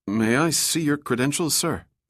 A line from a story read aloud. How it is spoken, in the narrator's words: the guard asked nervously